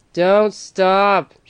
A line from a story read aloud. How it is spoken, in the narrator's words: shouted the driver